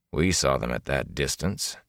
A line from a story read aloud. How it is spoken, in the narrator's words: Elias said dryly